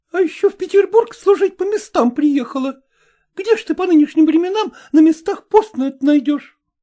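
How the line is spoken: Maid shouting. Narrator (Russian): закричала на нее горничная

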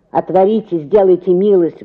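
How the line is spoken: Muffled deep bass voice. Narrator (Russian): говорил кто-то за воротами глухим басом

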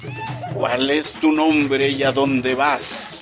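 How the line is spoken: Plain. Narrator (Spanish): preguntó

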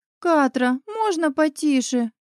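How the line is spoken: Whining from bed. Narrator (Russian): проскулила из кровати Дея

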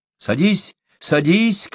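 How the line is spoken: Shouted. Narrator (Russian): крикнула Адака

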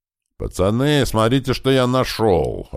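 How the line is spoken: Joyful shout from around corner. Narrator (Russian): радостно прокричал откуда-то из-за угла

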